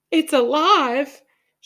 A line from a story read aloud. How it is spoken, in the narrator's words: she screamed